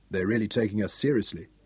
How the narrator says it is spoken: Craig murmured

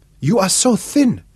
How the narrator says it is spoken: cried

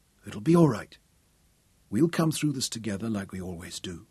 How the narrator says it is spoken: he whispered

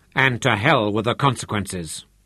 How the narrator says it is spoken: said harshly

